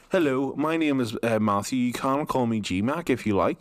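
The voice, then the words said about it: Put-on different accent. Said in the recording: “I'm going to not have to change my accent, but maybe start talking a wee bit more like this”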